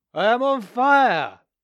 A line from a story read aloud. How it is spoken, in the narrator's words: cried out